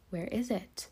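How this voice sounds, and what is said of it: Lowered, quiet voice. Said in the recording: “in a dropped voice”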